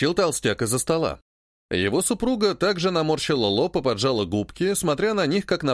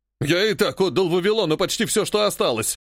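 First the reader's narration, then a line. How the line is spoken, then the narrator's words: Growling man. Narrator (Russian): рычал мужчина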